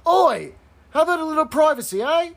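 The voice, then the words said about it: Put-on Cockney accent. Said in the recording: “my great impersonation of a Cockney accent”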